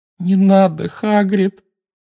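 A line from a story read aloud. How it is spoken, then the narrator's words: Moaning. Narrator (Russian): простонала Гермиона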